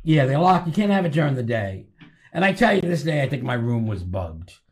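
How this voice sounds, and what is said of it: Rhode Island accent, Boston-New York blend. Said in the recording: “You sound like him... Where are you from? Brooklyn?... Are you from New York?... I'm from Rhode Island... I hear the Rhode Island. Yeah, the Rhode Island accent is... it's between like, Boston and New York.”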